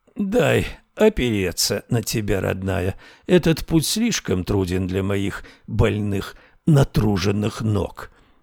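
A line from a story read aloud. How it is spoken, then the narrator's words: Creaky old woman. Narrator (Russian): снова проскрипела старуха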